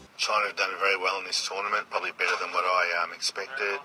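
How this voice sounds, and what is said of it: Australian English accent. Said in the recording (Chinese): “听一听澳大利亚 Australian accent ... Australian accent 也是非常的有特色。 有人认为澳大利亚口音的话呢，非常接近于伦敦的 Cockney”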